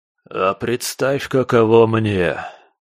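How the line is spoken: Hoarse but clear creature voice. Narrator (Russian): Сиплым, но вполне четким и членораздельным голосом вдруг обратился ко мне кусач

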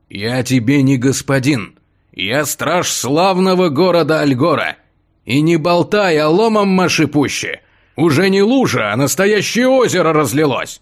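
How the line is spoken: Irritated growling guard. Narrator (Russian): Раздраженно прорычал стражник

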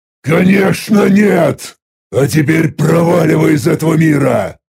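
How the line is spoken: Irritated roar. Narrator (Russian): Раздраженно взревел я

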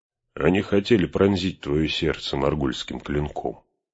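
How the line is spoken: Plain. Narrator (Russian): ответил Гэндальф

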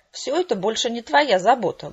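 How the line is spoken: Mocking singsong. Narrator (Russian): глумливо пропел прихвостень честнее

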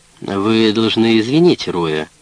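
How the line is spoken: Soothing tone. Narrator (Russian): сказал Блейн тем же успокаивающим тоном, что и Джек

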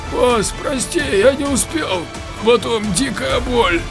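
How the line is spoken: Hoarse, apologetic. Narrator (Russian): Оправдываясь, сзади хрипел охранник

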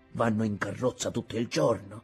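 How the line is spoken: Grumbling. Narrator (Italian): borbottava

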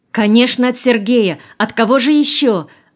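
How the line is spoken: Joyful exclamation. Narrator (Russian): радостно воскликнула Нина

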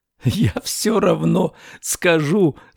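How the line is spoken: Speaking after laughing. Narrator (Russian): сказал, отсмеявшись

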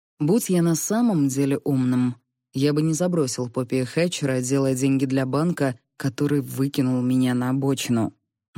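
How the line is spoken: Gloomy objection. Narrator (Russian): мрачно возразил

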